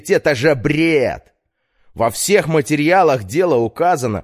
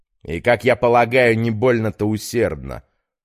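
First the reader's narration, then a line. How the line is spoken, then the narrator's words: Snorting. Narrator (Russian): хмыкнул Петр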